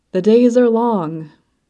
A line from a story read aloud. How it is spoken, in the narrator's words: she sighed